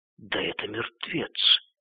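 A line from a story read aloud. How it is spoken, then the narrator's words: Crowd whispering. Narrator (Russian): В толпе шептали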